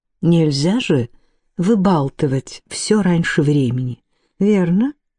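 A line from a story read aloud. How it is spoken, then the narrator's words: Mannered, slow drawl. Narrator (Russian): она выговорила эту бойкую детскую фразу все тем же манерным, медлительным тоном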